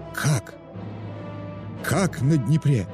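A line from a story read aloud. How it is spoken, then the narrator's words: Shocked exhale. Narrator (Russian): Потрясенно выдохнул мистер Роквиль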